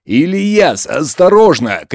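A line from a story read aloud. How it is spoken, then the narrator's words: Shout. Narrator (Russian): крикнул Егор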